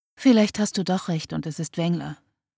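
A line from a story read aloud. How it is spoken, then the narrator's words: Sighing. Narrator (German): seufzte sie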